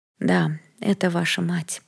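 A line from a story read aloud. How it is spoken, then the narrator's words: Sad smiling tone. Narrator (Russian): грустно улыбнулась Лаура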